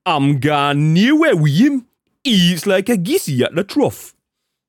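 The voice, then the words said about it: Unidentifiable put-on accent. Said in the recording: “attempt at some kind of accent there. I'm not sure which one it was.”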